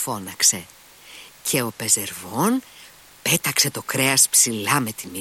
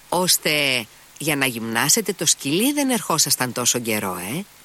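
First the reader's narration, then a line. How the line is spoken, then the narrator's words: Reproachful exclamation. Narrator (Greek): αναφώνησε ο Αλιώσα και στη φωνή του διακρίνονταν ένας τόνος επίπληξης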